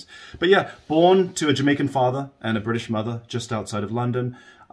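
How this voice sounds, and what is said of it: English accent with some American pronunciations. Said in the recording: “grew up just outside of London, England. That's the accent that people are hearing. The British listeners will hear some Americanisms in my pronunciation.”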